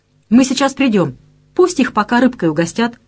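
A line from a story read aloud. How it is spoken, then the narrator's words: Boss barking. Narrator (Russian): рявкнул на девушку ее непосредственный начальник Бойко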